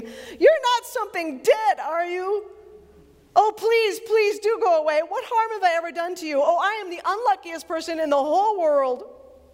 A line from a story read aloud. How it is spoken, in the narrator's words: for an even more terrible idea had come into his head, he said, almost in a scream